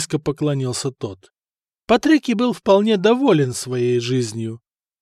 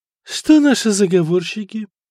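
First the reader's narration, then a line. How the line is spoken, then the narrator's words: Lazy question. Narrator (Russian): лениво спросила Мартина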